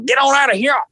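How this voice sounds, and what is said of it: Yelling in heavy Louisiana accent. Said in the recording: “he was heavy Louisiana accent. He's yelling,”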